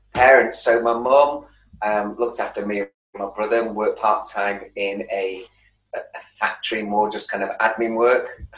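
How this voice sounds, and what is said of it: Manchester accent. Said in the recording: “when I say the word Manchester, my accent really bloody comes out. I can hide it quite well”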